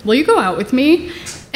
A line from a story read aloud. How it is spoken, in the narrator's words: he clears his throat, and he says kind of nervously